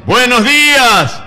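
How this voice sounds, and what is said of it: Booming announcer-style greeting. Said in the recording (Spanish): “como uno tiene voz de locutor”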